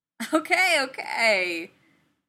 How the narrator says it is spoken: Clint laughed

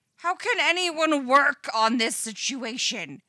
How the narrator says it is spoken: screams Eddie's panicky internal monologue

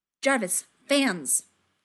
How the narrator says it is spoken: Tony snaps

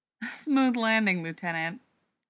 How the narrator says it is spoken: Cadman laughed

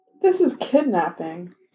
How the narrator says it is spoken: Chris said, very calmly

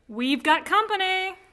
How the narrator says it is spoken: Han shouts from the bridge

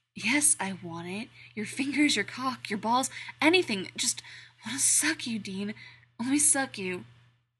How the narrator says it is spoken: he breathes

